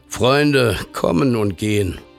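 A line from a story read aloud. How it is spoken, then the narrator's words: Father speaking wearily. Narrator (German): Der Vater blickte müde auf und sprach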